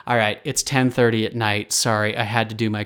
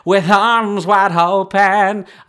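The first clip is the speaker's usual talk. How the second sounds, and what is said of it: Imitates a rock singer's voice. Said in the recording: “my Creed impression.”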